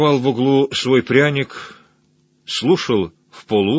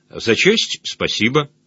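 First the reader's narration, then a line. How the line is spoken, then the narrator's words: Calm reply. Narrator (Russian): Добрыня ... ответил спокойно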